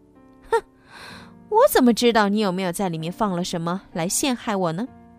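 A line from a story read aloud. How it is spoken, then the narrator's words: Smug laughter. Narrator (Chinese): 艾琳娜得意的笑着说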